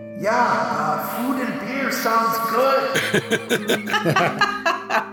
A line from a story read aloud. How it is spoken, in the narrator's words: someone yell out from the cells